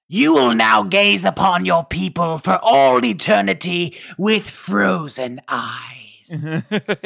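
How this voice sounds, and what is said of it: Villain Belial character voice. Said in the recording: “I'm going to try to read this in my best Belial impression ... That's a pretty good Belial there”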